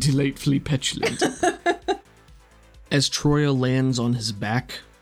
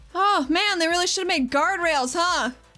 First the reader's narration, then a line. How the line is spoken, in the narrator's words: She yells down